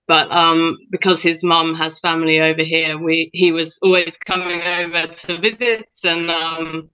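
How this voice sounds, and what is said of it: British accent. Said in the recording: “you have a bit of an accent, people will hear that ... as you can probably tell, grew up in the UK”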